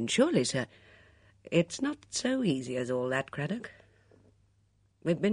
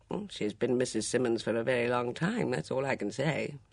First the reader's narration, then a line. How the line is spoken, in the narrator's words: said Ridesdale dryly